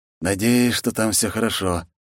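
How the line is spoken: Sigh after swallowing. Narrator (Russian): сглотнув, вздохнул Масаши

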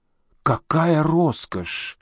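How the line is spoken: Old woman's involuntary exclamation. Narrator (Russian): невольно воскликнула старуха

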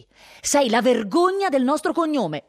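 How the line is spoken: Shouted. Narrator (Italian): gli gridò

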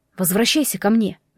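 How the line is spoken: Soft call. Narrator (Russian): мягко позвал Ваня

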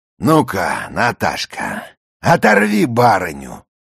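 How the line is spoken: Commanding call. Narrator (Russian): подал команду барин

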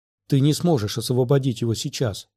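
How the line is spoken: Whisper. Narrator (Russian): шепнула Астри

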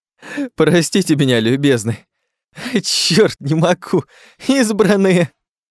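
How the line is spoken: Bursting into laughter. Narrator (Russian): разразился он новым приступом хохота

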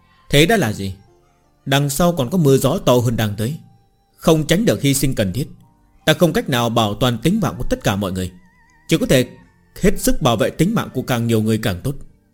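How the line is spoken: Smiling, coldly detached. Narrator (Vietnamese): Nghiếu Đạo ... mỉm cười, nói ra những lời có vẻ lạnh lùng vô tình

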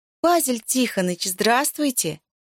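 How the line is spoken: Sugary tattletale voice. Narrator (Russian): окликнула его Зоя сладеньким голосом, присущим для всех ябед

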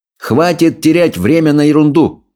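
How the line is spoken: Loud declaration. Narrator (Russian): громко заявил он

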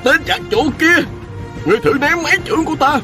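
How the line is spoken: Frenzied furious shout. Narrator (Vietnamese): Chữ Hồng Liễu giận dữ điên cuồng, y hét lên

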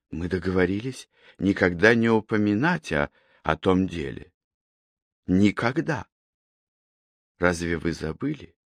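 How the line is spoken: Quiet, barely restrained anger. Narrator (Russian): Тихо произнесла она, с трудом сдерживая себя, чтобы не закричать на него

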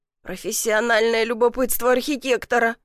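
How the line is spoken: Answered gloomily. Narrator (Russian): мрачно ответил я

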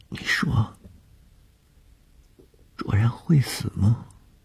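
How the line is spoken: Frightened question. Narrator (Chinese): 在天亮之前的惊恐中一句无意的问话

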